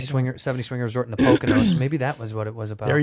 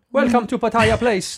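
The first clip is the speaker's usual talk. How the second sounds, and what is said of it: Put-on Thai accent. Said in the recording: “that's a Thai accent.”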